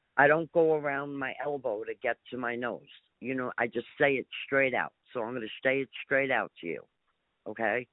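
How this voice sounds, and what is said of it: New York accent. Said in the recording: “I think you can tell from my accent, I'm from New York.”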